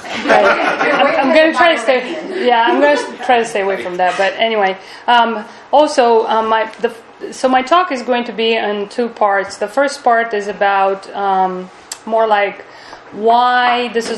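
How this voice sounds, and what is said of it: Non-native English accent. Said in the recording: “my bad English ... my accent”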